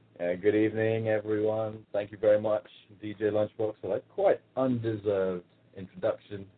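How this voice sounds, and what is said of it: London English accent. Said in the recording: “this is not an accent that has been put on. This is from the mean streets of London, England”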